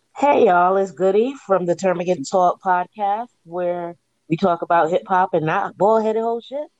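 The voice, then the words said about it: Rough, hungover-sounding voice. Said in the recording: “I sound like I was drinking Tito's last night”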